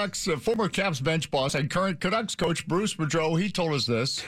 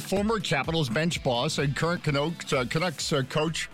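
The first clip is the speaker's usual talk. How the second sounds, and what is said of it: Brief put-on Canadian accent. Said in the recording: “I had a Canadian accent there for some reason.”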